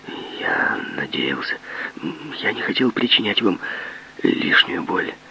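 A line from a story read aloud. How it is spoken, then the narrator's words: Muttered. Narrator (Russian): Он пробормотал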